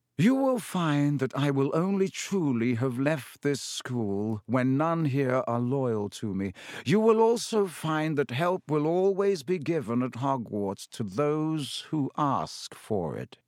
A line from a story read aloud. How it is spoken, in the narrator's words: said Dumbledore, speaking very slowly and clearly